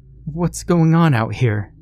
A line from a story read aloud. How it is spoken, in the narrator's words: the young woman asked, her tone one of timid confusion